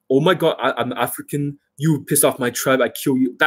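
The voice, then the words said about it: Put-on exaggerated African accent. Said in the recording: “I'm talking about the real ... That kind of accent.”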